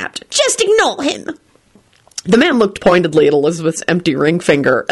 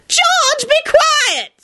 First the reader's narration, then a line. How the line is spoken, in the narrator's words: screeched his wife